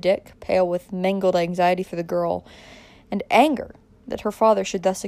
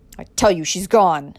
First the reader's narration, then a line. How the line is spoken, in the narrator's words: said the other furiously